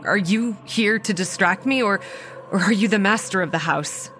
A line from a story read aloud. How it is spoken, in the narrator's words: She laughed and black liquid frothed at her lips until it filled her mouth and she began to choke